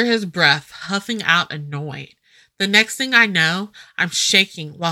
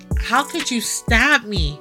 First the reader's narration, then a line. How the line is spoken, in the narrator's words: Garrett groans loudly